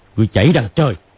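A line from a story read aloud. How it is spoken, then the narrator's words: Shouting. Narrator (Vietnamese): Hoắc Đô quát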